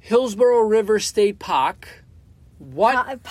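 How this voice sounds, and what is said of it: Boston accent. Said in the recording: “here comes the Boston accent... That was terrible.”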